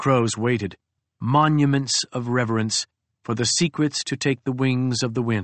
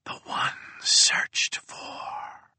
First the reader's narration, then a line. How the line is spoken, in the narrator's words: whispered